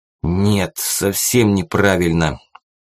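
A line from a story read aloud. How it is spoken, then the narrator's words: Angry puffing. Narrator (Russian): зло пропыхтел барин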